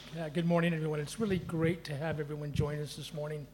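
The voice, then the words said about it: Southern Californian American accent. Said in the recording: “I'm not from around these here parts. I hail from Southern California, Los Angeles... I am aware I'm the one with the accent here”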